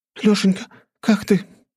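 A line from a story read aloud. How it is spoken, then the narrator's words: Sobbing. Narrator (Russian): рыдала подлетевшая к нам Настя, как будто Нарышкин был при смерти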